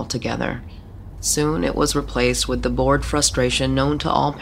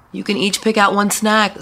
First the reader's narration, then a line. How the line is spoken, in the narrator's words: Sarah shouted